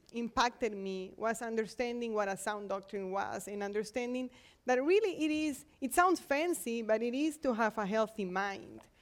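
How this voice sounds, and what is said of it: Non-native English accent. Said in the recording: “you can tell I'm not from here, so so sorry for the accent”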